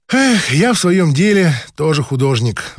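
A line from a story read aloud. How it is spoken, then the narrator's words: Sighing woman. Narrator (Russian): вздохнула проктолог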